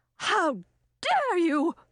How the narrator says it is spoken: exclaimed the young woman

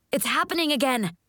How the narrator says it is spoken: Morgan shouts from atop the ball return

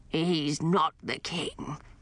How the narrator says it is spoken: grumbled the stooped ghost

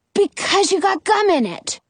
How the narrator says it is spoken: Jonah exclaims

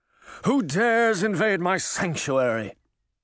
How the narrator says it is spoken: Mirror bellowed

